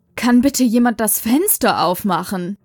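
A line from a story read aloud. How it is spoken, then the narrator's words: Giggling. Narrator (German): kicherte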